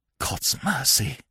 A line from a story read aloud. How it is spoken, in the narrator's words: he whispered